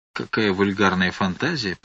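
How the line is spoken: Mutter. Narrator (Russian): пробормотал Спиридон

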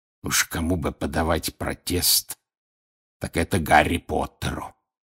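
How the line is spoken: Hoarse wheeze. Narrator (Russian): прохрипел Грюм

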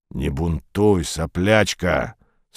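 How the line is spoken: Stern. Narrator (Russian): строго сказала левая голова

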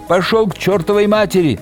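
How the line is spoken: Furious yelling. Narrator (Russian): заорала она яростно

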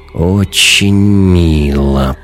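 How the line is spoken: Drawling. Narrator (Russian): протянул Вим

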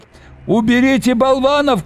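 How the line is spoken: Shouting. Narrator (Russian): кричал он

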